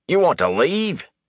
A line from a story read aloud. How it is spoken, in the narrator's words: he exclaimed